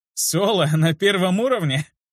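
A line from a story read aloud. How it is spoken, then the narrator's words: Nervous laugh. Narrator (Russian): Я засмеялся, но вышло как-то нервно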